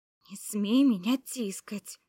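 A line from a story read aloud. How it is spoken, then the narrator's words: Hissing like angry cat. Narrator (Russian): Я зашипела, как злобная кошка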